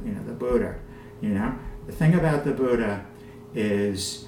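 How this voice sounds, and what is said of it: New York accent. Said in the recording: “I always say the Buddha with my New York accent,”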